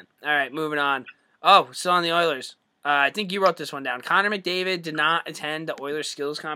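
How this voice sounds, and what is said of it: Usual voice. Nothing is said of it.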